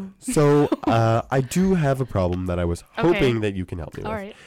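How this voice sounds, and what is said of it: Usual voice. Nothing is said of it.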